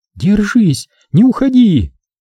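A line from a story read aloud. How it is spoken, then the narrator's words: Pleading. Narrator (Russian): взмолилась Джульетта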